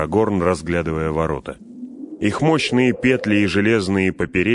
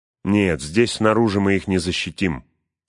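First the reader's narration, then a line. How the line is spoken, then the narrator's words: Plain. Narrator (Russian): сказал Эомер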